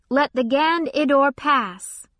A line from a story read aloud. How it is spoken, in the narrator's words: the soldiers guarding it shouted